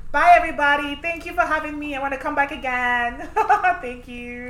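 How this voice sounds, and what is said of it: Valley Girl accent. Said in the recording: “that's really how ... talks with her Valley Girl accent.”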